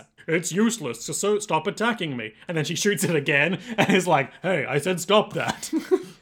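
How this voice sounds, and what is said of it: Very chill, relaxed character voice. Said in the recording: “In a very chill voice.”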